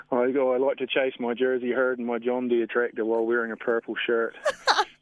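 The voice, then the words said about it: Noticeable regional accent. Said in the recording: “I'm still just sitting here marvelling at your accent”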